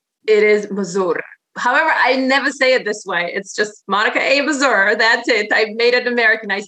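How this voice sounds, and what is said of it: Heavy Polish accent. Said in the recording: “you say it so beautifully. I love your accent ... you got the heavy Polish accent”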